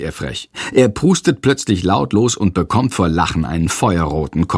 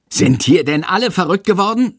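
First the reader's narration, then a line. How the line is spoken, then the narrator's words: Shouting. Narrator (German): schreit Herr Lersiko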